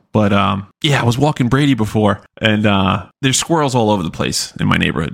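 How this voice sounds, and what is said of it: Choked-up, congested, short-winded voice. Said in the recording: “Got a little choked up there. ... I had to walk away and blow my nose. And you can probably hear it in my voice. ... I was being a little short-winded there for a while.”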